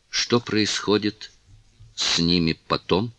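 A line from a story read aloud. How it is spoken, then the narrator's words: Stammering mutter. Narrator (Russian): запинаясь, пробормотала Кларинда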